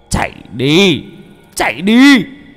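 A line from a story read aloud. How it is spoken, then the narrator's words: Old man shouting. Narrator (Vietnamese): Lão hét lên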